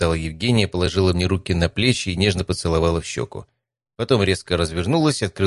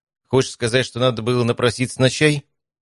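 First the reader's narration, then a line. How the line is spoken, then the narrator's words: Indignant chirp. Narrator (Russian): Федя возмущенно чирикнул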